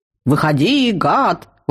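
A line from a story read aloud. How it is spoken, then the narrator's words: Yelling. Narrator (Russian): вопил рыцарь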